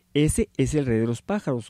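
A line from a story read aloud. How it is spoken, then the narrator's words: Plain. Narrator (Spanish): contestó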